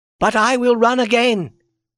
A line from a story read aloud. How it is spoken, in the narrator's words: she cried a moment later